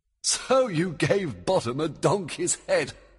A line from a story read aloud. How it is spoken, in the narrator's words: Oberon laughed